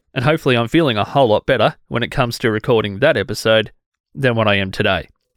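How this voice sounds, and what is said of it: Rough, unwell-sounding voice. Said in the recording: “how trash my voice is”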